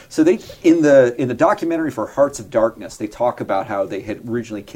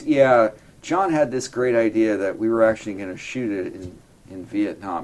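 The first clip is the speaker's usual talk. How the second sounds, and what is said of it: Deadpan imitation of another person's voice. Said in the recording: “that George Lucas kind of deadpan voice”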